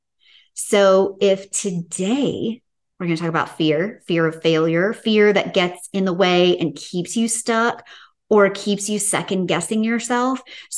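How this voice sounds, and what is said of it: Southern US accent. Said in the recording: “my accent is awful? ... Are you from the South? ... we have a similar accent”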